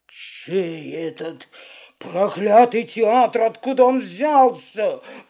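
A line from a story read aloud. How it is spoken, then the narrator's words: Growling. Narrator (Russian): прорычал Карабас-Барабас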